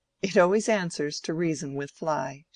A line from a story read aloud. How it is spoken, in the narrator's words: she said laughingly